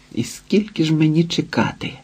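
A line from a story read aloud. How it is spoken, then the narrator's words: Irritated mutter. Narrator (Ukrainian): пробурмотів роздратовано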